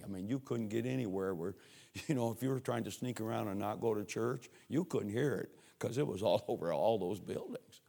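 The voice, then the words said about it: Voice in poor condition. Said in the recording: “my voice was terrible tonight for some reason”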